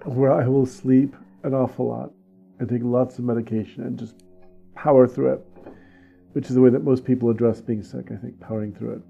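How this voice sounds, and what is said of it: Slightly raspy, husky voice. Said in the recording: “I'm just getting used to my new sexy voice... You do have a little bit of a rasp... I have the voice for it now.”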